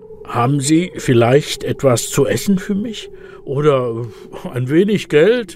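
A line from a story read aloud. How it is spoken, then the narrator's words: Rough-voiced question. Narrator (German): Der Weihnachtsmann fragt mit rauer Stimme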